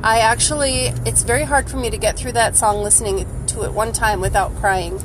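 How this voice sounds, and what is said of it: Sick, unwell-sounding voice. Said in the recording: “I'm sorry for my voice. ... I'm just not feeling good.”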